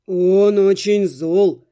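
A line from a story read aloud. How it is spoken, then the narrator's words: Confiding. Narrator (Russian): сообщил кракозябр доверительно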